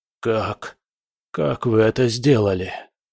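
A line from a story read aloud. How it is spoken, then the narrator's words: Whisper. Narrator (Russian): прошептал он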